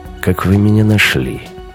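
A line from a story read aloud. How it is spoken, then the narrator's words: Unexpectedly dry. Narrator (Russian): голос Морозова прозвучал неожиданно сухо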